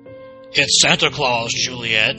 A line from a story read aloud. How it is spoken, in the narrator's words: he growled